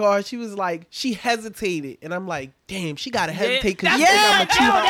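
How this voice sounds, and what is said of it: Usual voice. Nothing is said of it.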